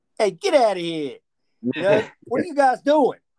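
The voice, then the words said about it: Put-on old mafia accent. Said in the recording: “the old mafia accent.”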